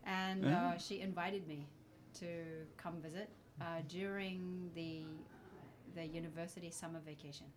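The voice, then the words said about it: Unusual New Zealand accent. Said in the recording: “I'm from New Zealand, by the way. this is a weird accent.”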